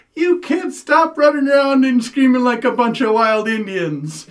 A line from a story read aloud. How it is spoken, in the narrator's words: she yells out the window